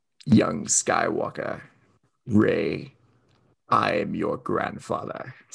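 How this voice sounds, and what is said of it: Emperor Palpatine voice, breath-held, deep. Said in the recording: “the hold on the A ... It goes like deep on the A ... sounds like you're holding your breath as you're talking ... my Palpatine impression”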